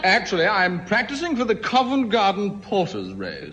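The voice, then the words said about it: Distinctive accent. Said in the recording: “did you hear that accent? Isn't he just the cutest thing?”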